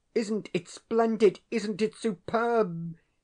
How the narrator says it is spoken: he cried

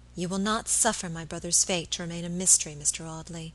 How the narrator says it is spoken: she said quietly

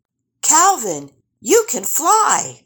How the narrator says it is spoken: they exclaimed

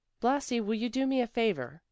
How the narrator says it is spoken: she asked in a friendly tone

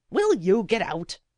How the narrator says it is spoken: said the old woman crossly, for Blasi stood as if rooted to the floor

